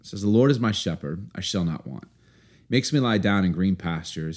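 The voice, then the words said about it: Storytelling reading voice. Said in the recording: “I'm going to read it to you in my best story voice”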